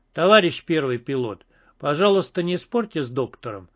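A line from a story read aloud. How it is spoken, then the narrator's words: Serious, stern, commander. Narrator (Russian): совершенно серьезно и строго произнес командир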